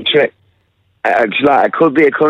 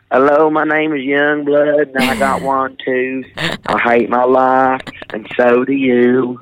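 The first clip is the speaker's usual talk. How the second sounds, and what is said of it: Put-on hillbilly country accent. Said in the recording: “You sound like Cletus in Simpsons ... that accent ... country star”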